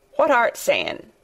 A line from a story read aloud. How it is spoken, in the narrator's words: he asked, rather testily, because he did not want his attention distracted